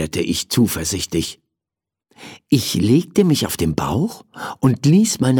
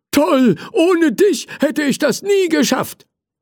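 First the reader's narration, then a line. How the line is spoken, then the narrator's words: Called out gratefully. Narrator (German): rief der Feuerwehrmann dankbar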